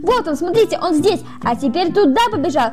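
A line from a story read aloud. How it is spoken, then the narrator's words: Cheerful children shouting. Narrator (Russian): Весело кричали дети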